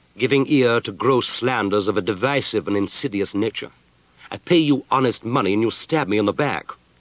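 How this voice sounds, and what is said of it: Pert Scottish brogue. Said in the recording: “in his pert Scottish brogue”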